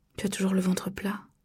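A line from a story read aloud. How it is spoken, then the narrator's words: Murmured. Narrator (French): murmura-t-il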